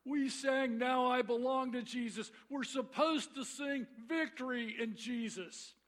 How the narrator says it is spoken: this member was irate, he began to shout

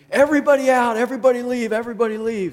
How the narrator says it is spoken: these same two managers came running screaming

